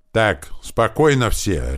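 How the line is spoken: Barking shout. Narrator (Russian): рявкнул Туман

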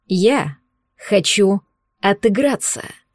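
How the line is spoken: Peremptory, clipped. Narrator (Russian): непререкаемым тоном отчеканил паразит

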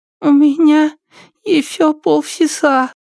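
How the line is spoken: Strained squeak. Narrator (Russian): пискнула она, стараясь не глотать

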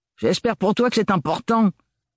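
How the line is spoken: Spat impatiently. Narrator (French): finit-elle par cracher d'un ton impatient

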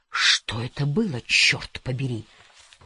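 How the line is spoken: Forced out. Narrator (Russian): выдавила

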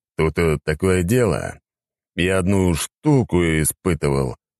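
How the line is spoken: Mysterious voice. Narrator (Russian): загадочным голосом проговорил он

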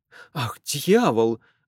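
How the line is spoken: Exclaiming. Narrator (Russian): воскликнул он

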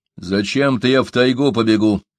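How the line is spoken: Angry reply. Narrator (Russian): зло ответил у Дога

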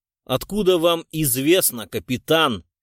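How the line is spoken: Angry retort. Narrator (Russian): Сердито бросил Гуров

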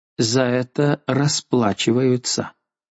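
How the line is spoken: Muttered. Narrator (Russian): пробормотала

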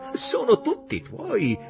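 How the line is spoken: Laughing. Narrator (Italian): Martin le disse ridendo

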